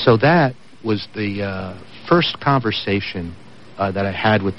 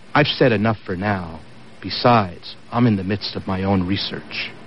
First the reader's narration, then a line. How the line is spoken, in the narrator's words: Andrew calmly responded while walking away